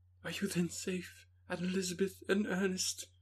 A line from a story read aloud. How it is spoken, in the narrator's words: cried